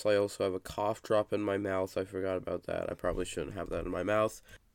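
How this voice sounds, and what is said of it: Sick-sounding voice. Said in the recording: “I'm pretty sick at the moment, so please excuse my voice.”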